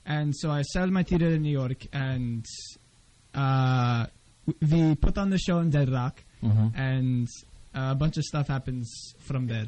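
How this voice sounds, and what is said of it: Hungarian accent with hesitant ums. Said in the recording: “Is the Hungarian accent always got an "um" in the middle? ... Is that part of the Hungarian accent? ... It's authentic. It's like you're thinking Hungarian, but you're switching it to English.”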